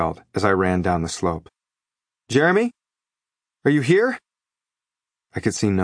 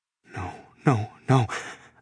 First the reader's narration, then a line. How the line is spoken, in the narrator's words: I muttered